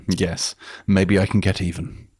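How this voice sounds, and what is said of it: Posh English accent. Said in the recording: “said in a sort of, you know, posh English accent, doesn't quite have the same power”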